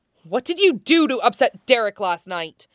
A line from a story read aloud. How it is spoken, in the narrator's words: Laura snarls